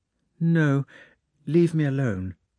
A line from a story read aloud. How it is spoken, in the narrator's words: said Princess Maria